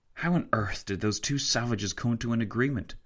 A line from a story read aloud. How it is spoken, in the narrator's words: Tancred whispered to Fitzwilliam